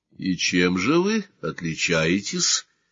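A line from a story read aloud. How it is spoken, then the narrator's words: Calm question. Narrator (Russian): спокойно спросил Сварог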